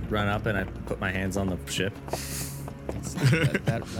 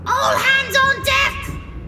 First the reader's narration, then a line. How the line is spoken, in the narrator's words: Overhead, you hear Captain Marge shout